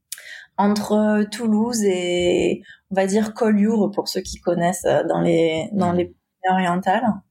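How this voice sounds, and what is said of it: Southwest French accent. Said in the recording (French): “D'où l'accent, hein. C'est pas un accent américain, hein. C'est l'accent du sud-ouest.”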